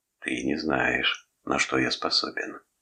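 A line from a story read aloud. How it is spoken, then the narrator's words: Whispered in the ear. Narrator (Russian): шепнул на ухо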